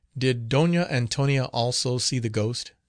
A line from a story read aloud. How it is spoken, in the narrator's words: said he